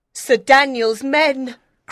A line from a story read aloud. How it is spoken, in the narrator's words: cried the boy